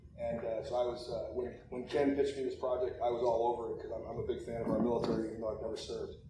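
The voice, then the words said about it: Hoarse, fading voice. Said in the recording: “My voice is going.”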